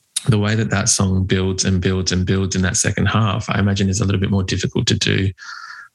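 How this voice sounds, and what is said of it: Australian accent. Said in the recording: “I'm not sure if you can tell by the accent, but we are in Australia.”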